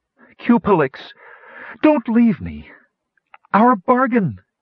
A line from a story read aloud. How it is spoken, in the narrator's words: Kitiara cried desperately